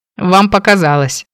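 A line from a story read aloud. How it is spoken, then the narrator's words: Sly smirk. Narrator (Russian): вдруг хмыкнул Кейн, лукаво улыбнувшись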